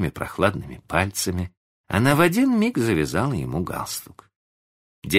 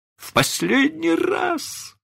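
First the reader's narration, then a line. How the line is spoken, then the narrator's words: Moaning man. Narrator (Russian): стонал мистер Дарлинг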